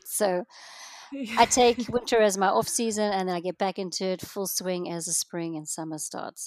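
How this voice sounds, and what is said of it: South African accent. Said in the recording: “What is your accent? ... I'm from South Africa. I was born and raised in South Africa”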